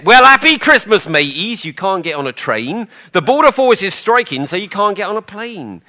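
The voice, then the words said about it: West Country accent, imitating Pam Ayres. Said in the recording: “Pam Ayres, she had kind of a West Country accent.”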